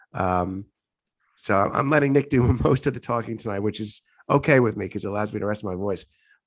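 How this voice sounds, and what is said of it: Hoarse, congested voice. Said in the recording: “I'm getting over congestion. So that's why my voice is pretty hoarse.”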